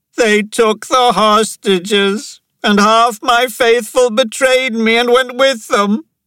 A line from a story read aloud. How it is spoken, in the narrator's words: Pankaj wailed